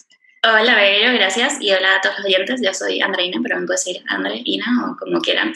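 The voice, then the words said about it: Venezuelan Spanish accent. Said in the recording (Spanish): “Por mi acento. ... Yo soy venezolana”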